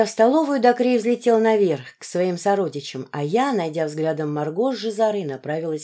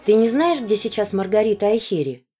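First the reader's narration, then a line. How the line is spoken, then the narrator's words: Plain. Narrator (Russian): спросил ее Адакрея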